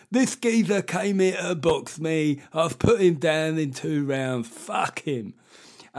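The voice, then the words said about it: Nigel Benn impression with slight lisp. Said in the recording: “one of the few people I can do an impression of in sport. It's a Nigel Benn. ... He used to have a little bit of a lisp.”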